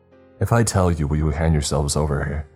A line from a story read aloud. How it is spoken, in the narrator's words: Even his voice was shaking